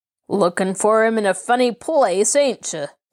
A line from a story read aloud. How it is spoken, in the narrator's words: sneered the man